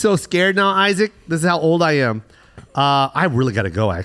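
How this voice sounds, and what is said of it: Usual voice. Nothing is said of it.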